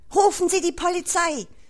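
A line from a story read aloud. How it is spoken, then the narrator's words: Director shouting. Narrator (German): schrie der Generaldirektor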